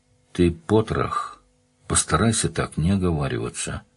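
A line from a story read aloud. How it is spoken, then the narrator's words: Calm. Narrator (Russian): спокойно произнес незнакомец с пистолетом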